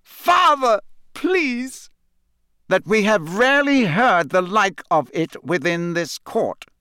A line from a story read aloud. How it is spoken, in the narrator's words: said Crouch, speaking more loudly, drowning out his son's voice